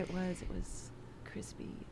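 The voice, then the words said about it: Quiet ASMR-style voice. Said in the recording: “Say it really quietly into the mic ... ASMR pizza ... You have a great ASMR voice”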